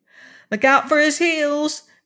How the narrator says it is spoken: cried Betsy warningly

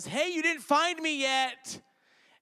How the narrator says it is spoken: she yells

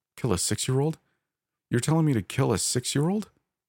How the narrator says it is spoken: cried

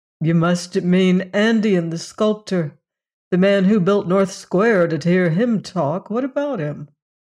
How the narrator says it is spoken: laughed

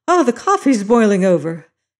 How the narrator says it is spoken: she exclaimed

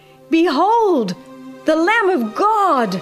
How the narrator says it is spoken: the prophet ... cried

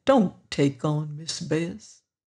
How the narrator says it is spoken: old Isaac said gently

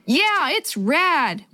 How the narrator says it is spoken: Willie yelled back

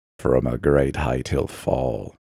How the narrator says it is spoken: whispered the visitor

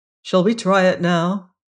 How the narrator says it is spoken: he said

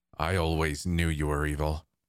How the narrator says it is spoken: Kente growled

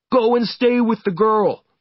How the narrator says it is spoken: they shouted

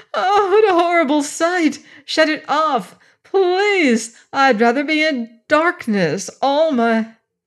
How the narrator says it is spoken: screamed

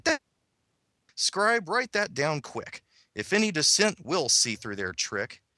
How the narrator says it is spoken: They all cried

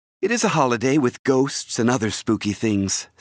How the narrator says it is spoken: said Wendy

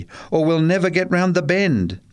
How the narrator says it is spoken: yelled Charlie

